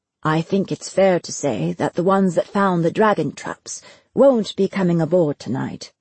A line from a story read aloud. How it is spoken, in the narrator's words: Destin said, his voice cool and matter-of-fact